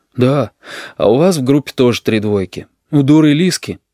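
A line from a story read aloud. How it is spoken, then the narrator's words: Sighing. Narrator (Russian): Оксана вздохнула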